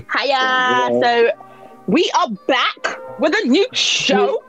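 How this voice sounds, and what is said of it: Loud, shouting delivery. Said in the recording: “I'm shouting in everyone's ears”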